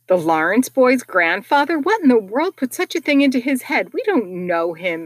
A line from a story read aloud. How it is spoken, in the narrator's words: exclaimed Meg